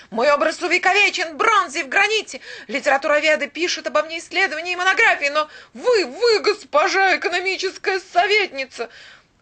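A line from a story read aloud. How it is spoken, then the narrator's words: Exclaiming. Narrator (Russian): воскликнул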